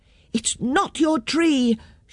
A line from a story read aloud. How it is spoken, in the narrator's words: shouted the children